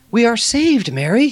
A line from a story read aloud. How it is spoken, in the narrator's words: exclaimed